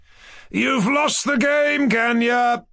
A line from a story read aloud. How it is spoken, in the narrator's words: he cried